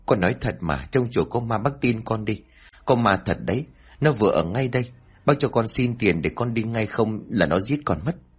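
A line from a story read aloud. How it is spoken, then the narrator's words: Trembling stammer. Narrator (Vietnamese): Tếu liền run rẩy lắp bắp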